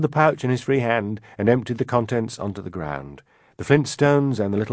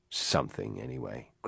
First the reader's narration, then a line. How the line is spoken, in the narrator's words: grumbled the first robber